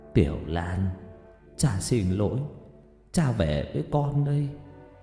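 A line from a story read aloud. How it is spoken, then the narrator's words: Muttering. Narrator (Vietnamese): ông lẩm bẩm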